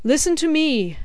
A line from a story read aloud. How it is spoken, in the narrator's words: he cried